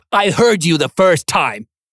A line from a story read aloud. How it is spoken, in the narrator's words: Brian snapped, leaning into the statement